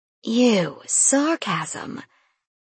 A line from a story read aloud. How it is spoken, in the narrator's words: Sarah hissed